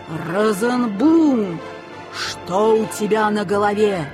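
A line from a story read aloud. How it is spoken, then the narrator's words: Ominous whisper. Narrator (Russian): зловещим шепотом проговорил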